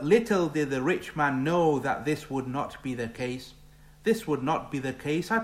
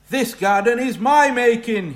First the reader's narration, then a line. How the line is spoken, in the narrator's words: shouted